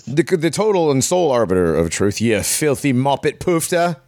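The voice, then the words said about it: Bad put-on British accent. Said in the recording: “That was a worse British accent than Kevin Costner in Prince of Thieves.”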